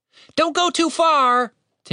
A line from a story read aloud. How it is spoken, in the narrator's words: Tim shouted after him